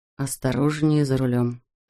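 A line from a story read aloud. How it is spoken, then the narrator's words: Whisper. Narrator (Russian): шепнул ей Марк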